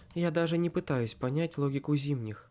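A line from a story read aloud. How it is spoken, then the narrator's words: Sighing. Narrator (Russian): вздохнула Аврора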